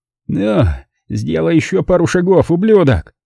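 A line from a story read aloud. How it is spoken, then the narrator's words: Hoarse angry blurt. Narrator (Russian): Хриплым от злобы голосом выпалил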